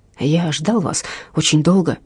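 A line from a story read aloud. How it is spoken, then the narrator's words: Quiet. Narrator (Russian): сказал тихо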